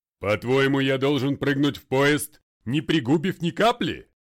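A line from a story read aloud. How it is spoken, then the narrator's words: Father barking. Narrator (Russian): рявкнул отец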